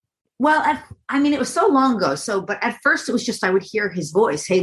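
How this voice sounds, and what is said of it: Usual voice. Nothing is said of it.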